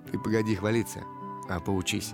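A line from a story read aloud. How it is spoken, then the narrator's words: Laughing. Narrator (Russian): Учитель засмеялся и сказал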